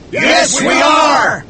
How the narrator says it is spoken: shouted the harpooners and the sailors, who were excited

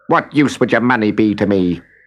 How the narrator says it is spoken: snapped the little man

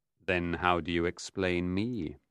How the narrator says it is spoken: Mephistopheles asked softly

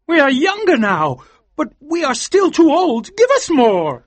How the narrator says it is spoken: cried Mr

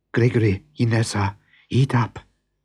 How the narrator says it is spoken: whispered Anna

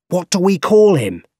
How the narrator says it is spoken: He shouted

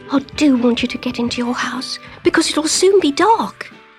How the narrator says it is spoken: he whispered in her ear

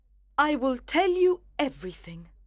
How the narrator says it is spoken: cried his wife with a proud face

